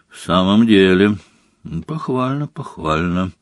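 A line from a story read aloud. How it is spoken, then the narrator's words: Bored drawl. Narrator (Russian): скучающим тоном протянул Снег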